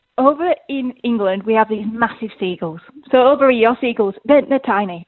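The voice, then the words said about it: English accent. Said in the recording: “I've come from England, as you know. Pick up the accent”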